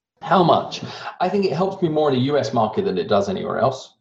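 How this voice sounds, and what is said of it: Rounded-off British accent, somewhat American. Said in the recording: “I have a rounded off British accent that sounds like I'm more American than I am British ... I now almost have an international accent”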